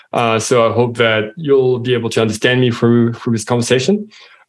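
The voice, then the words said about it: French accent. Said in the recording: “as you can hear from my accent, I'm French.”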